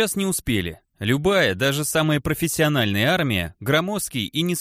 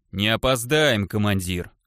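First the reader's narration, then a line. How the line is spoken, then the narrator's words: Rumbling voice. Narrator (Russian): ракочущим голосом отозвался Глыба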